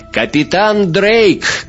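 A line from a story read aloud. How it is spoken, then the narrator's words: Shouting. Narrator (Russian): крикнула я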